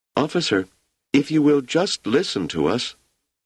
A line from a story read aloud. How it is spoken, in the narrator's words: Wanda said in a sweet, small voice